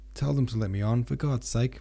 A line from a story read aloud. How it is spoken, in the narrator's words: He asked in a nervous, pitiful voice